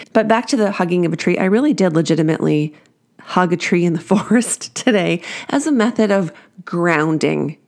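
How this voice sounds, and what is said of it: Congested, allergy-affected voice. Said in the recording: “birch and oak in particular that are trying to kill me with their pollen. So all that to say, that's why my voice is so annoying. My apologies. Extra annoying.”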